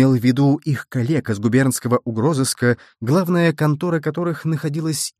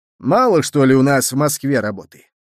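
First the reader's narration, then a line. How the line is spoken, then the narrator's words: Grumbling from a corner. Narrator (Russian): проворчал кто-то из угла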